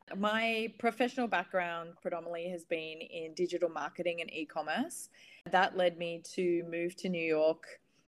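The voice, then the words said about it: Australian accent. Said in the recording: “As you can tell from my accent, I'm Australian.”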